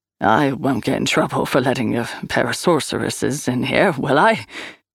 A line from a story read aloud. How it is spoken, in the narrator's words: He chuckled to chase away the reality of the situation